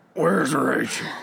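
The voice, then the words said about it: Batman voice impression. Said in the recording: “can you do his voice?”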